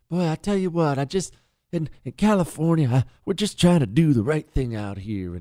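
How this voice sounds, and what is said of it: Soothing politician voice impression. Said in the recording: “that stupid little soothing vo- voice he tries to do ... good Gavin Newsom impression”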